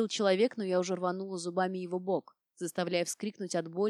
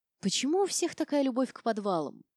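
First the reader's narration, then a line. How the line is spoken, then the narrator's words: Mumbled. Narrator (Russian): пробормотала я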